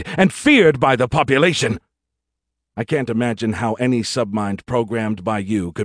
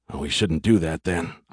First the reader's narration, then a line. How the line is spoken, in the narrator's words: I muttered